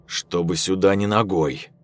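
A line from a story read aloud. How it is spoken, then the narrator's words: Stern order. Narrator (Russian): Виктор строго приказал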